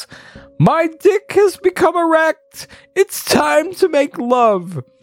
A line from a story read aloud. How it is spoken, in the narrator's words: Goblin King claim, gets excited, and yells